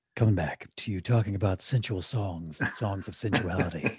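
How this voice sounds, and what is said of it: Low late-night radio voice. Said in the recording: “Are we doing our low radio voices?”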